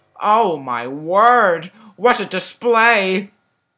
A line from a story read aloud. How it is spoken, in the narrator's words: The librarian whimpered out, much to Daniel's delight